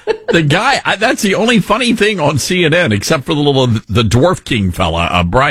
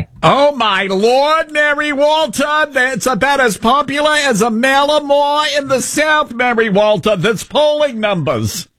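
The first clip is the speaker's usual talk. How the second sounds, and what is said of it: Imitated voice, Staten Island yenta sound. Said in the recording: “you sound like a Yenta from Staten Island? ... That's my Harry Enten impression.”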